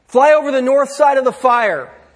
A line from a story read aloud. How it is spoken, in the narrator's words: the photographer cried out